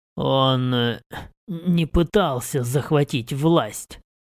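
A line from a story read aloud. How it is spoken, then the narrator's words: Rasping. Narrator (Russian): прохрипел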